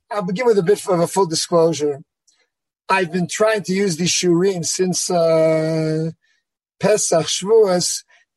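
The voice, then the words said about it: Slightly hoarse voice. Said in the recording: “I'm a bit hoarse from Yom Kippur”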